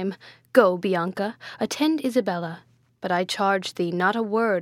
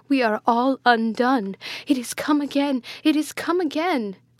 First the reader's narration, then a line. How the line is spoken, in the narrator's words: cried she